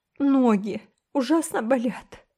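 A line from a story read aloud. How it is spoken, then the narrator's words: Sobbing. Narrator (Russian): всхлипнула Рила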